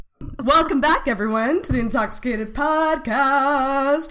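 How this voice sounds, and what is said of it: Game show host voice. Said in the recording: “That was my game show voice.”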